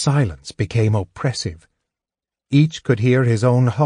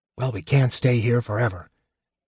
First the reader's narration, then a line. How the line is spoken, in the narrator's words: Eben said hoarsely